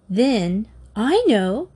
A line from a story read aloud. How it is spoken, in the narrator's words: Katie cried